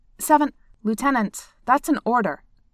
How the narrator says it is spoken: Seven said sharply

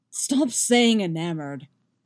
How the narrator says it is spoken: Geralt snarls

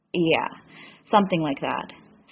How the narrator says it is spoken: Sam says sullenly

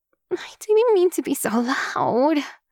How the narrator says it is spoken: Utako groans

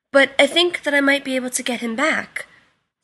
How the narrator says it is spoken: Sam said eagerly

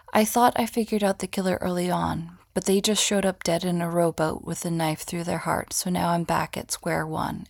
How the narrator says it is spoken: Alec says

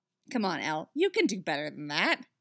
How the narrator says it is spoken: he scoffs

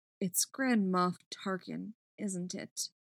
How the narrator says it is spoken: she said, when she thought her voice would be steady

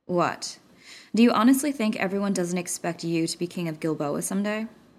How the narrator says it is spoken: he asked, keeping his voice calm and neutral

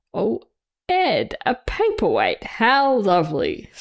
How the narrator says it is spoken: Steed exclaimed

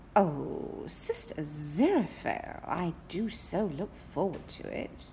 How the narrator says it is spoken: Crowley purred

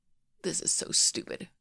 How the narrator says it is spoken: he mutters

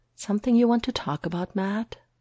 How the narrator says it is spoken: Foggy asks him gently, a little amused but also a little worried

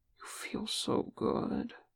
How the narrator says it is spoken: Sam murmured

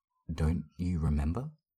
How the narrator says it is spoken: She says, her voice wavering

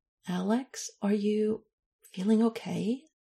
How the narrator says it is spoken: She asked a little hesitantly

